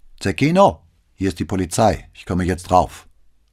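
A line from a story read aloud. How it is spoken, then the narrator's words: Calling out. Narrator (German): rief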